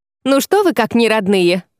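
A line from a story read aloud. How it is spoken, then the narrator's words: Wry snort. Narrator (Russian): хмыкнула Изанна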